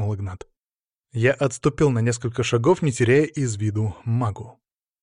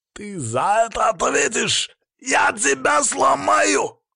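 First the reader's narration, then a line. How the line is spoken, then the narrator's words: Hoarse yelling. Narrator (Russian): хрипло орал мага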